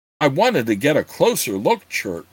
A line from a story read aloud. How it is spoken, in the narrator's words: Gord said in a patronizing tone